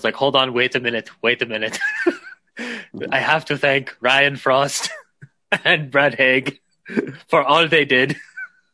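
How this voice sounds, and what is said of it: Imitates another person's voice. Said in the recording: “your Schwarzenegger impression”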